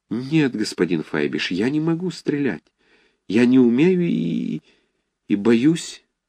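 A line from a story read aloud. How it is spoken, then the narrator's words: Timid. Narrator (Russian): ответил он робко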